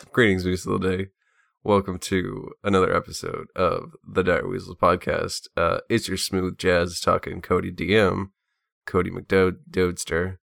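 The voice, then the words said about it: Sleepy-sounding voice. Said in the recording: “you sound a little sleepy”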